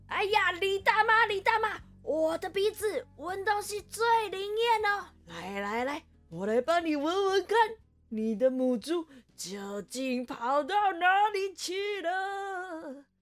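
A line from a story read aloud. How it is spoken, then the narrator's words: Loud shout. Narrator (Chinese): 猴皮塞呀，他就拉开他的嗓门大喊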